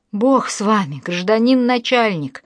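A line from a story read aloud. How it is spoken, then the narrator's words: Wailing. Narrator (Russian): взвыла Марья Тихоновна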